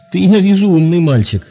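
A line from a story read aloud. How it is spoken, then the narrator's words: Laughing. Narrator (Russian): засмеялся молодой человек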